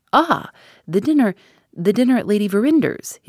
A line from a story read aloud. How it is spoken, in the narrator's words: exclaimed, more eagerly than ever